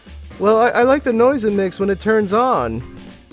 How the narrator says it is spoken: he whines

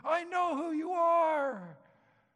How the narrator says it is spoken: He was shouting at him, and he said

